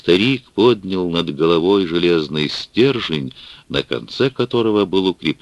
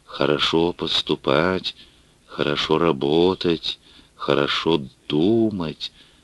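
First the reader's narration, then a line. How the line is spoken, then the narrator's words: Mumbled in unison. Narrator (Russian): он забормотал вместе с остальными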